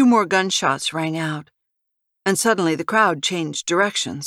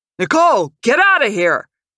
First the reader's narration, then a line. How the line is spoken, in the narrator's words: Sipes yelled as he rushed past her